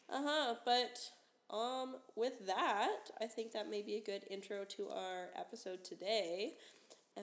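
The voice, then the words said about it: Sick voice, sounds lower. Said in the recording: “I'm sick, as you can probably tell. I sound like a boy.”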